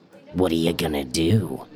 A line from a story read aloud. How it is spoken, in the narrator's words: He asks, rasping in his scorpion voice